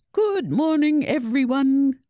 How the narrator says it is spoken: boomed the headmaster's cheery voice over the school's PA system

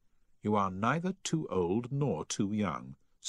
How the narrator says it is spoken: said Miss Munday

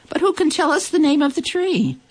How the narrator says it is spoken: The animals cried out

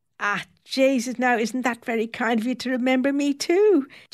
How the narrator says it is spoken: Janet exclaims, delighted

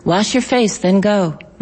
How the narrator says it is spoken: my mother said

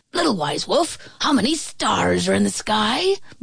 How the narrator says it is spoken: barked the badger

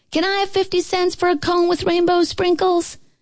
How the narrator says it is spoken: we yelled up to our mothers

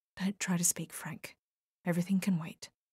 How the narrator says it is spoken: whispered close to his face

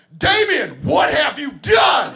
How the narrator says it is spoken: at the top of my lungs, I yell

